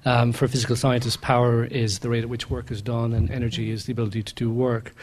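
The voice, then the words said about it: Irish accent. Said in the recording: “you probably gather from my accent, I'm from Ireland”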